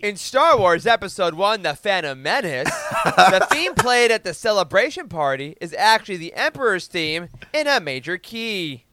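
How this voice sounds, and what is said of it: TikTok explainer voice impression. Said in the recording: “Perfect TikTok voice ... my TikTok impersonation of that guy”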